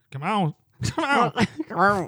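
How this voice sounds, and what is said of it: Squeaky helium-like high voice. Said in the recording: “What was that voice? ... A big old thing of helium right before.”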